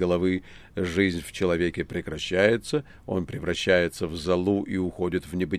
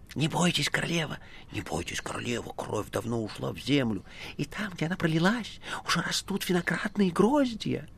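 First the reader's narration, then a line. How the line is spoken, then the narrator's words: Unknown voices whispering. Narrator (Russian): чьи-то голоса, а чьи она не разобрала, шепнули в оба уха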